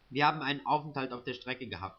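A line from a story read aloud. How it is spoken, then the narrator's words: Plain. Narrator (German): sagte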